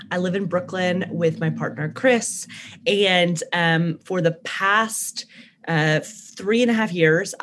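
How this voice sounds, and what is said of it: Slight Southern American twang. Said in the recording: “originally from Birmingham, Alabama, which is why you'll hear like a southern twang in my voice sometimes”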